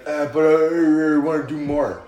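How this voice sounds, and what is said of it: Imitates another person's voice. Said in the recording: “my Big Cass impression ... He turned into Sylvester Stallone.”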